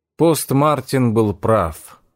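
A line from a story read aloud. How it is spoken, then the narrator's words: Sighing. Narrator (Russian): вздохнул Найтингейл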